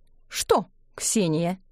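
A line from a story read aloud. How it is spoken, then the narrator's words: Stern question. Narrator (Russian): спросила Ксюша строго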